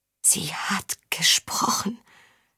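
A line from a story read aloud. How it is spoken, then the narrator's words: Insistent whisper. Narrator (German): flüsterte Saga beharrlich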